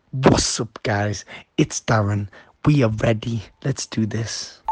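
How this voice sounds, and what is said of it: Imitates another person's voice. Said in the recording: “are you just going to impersonate him”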